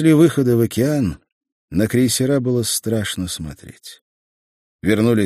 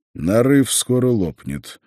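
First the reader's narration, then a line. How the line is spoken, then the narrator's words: Gloomy. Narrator (Russian): мрачно ответил Скрыдлов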